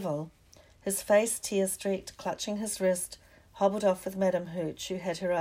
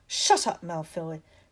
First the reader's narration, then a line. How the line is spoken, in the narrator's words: snapped Parvati Patil